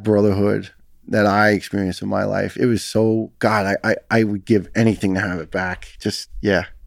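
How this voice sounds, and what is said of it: New York accent. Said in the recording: “New York ... they got similar accent as yours”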